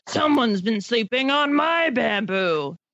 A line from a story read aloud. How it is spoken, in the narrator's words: Byers growled